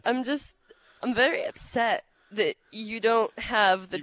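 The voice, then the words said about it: Slips into a terrible put-on accent. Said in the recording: “slid into a terrible accent”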